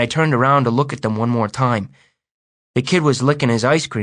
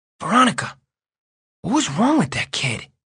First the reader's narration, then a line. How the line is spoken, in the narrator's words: I whispered